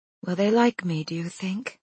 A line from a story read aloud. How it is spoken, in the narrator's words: Ruth says so quietly, Naomi wonders if she meant to speak aloud